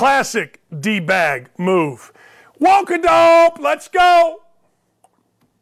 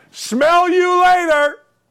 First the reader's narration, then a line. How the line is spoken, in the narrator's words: yell